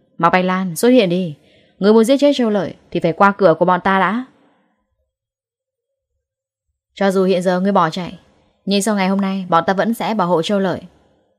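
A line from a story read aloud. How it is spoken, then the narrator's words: Loud shout. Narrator (Vietnamese): Lâm Hiểu Phong hét lớn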